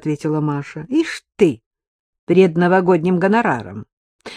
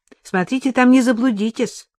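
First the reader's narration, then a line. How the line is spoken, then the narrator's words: Calling after someone. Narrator (Russian): крикнула вслед Вероника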